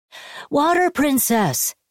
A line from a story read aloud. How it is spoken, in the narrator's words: they cried at Atuat